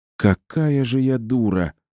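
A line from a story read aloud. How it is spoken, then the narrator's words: Moaned. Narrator (Russian): простонала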